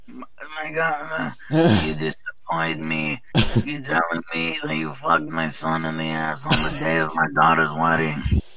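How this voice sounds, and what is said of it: Godfather movie mobster impression. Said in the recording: “The godfather.”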